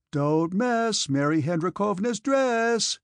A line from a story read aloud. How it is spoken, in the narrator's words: cried other voices